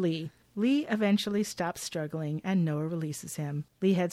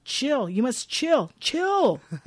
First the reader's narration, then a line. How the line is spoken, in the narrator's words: Noah yells